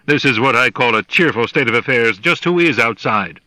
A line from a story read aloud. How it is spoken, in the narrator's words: the captain snapped